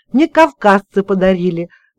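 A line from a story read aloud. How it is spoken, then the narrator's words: Joyful admission, son. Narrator (Russian): радостно признался сын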